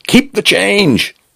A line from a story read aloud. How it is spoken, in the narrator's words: he shouted